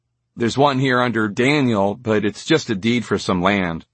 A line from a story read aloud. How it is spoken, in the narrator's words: said, his voice sinking in disappointment